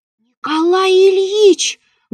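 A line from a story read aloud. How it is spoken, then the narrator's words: Loud whisper. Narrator (Russian): громко прошептал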